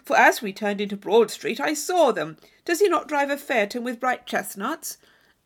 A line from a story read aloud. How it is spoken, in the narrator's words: cried Thorpe